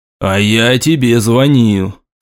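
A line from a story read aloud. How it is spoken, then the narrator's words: Bored tone. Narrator (Russian): скучным тоном продолжил Артем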